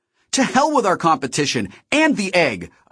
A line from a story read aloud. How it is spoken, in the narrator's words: I shouted